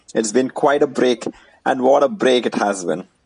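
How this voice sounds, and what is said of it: Indian accent. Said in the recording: “your favorite NBA podcast in an Indian accent”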